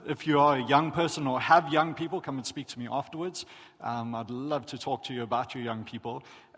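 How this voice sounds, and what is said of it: South African accent. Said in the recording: “you might be able to tell by the accent, but I'm from South Africa”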